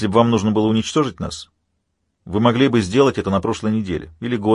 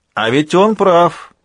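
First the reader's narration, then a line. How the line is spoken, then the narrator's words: Shouted from below. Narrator (Russian): прокричал снизу Майкл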